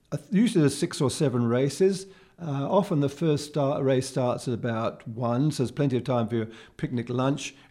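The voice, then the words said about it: Croaky, tired voice. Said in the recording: “my voice is getting quite croaky”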